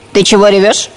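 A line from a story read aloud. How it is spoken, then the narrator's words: Stern question. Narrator (Russian): строго спросила муха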